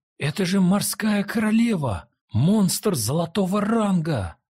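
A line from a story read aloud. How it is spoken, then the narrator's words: Excited cry. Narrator (Russian): взволнованно вскрикнул кто-то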